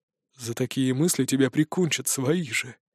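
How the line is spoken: Quiet mutter. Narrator (Russian): тихонько пробормотал третий

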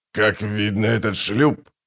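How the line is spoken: Smirking grunt. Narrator (Russian): хмыкнул Аддарио Бах

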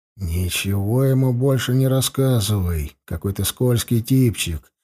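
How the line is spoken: Whispered in ear. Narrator (Russian): шепнул я Эрли на ухо

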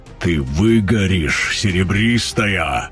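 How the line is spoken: Roaring. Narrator (Russian): проревел он

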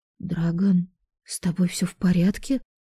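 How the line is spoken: Quiet question. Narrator (Russian): спросила тихо

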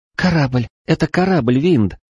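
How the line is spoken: Excited girl's whisper. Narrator (Russian): взволнованно прошептала девушка

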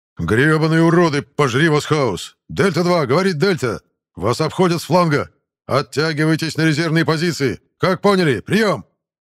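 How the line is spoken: Strained yelling over radio. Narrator (Russian): Савельев с красным лицом орал в эфир, напряженно

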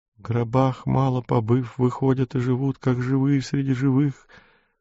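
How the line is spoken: Thin faltering mutter. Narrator (Russian): Тонкий прерывающийся голос бормотал

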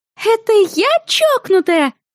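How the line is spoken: Shrill roommate howling. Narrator (Russian): с визгливыми интонациями взвыла соседка по комнате

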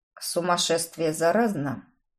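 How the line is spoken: Quiet question. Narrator (Russian): Тихо спросил Этан у подмастерья

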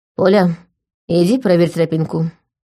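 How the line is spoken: Tired command. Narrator (Russian): устало велела Лика

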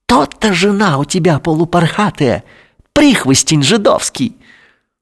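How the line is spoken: Gleeful hiss. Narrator (Russian): прошипел радостно

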